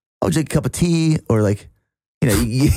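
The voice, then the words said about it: Half-hearted put-on British accent. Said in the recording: “were you trying to do an English accent... I wasn't confident in it... You did not commit... my British accent”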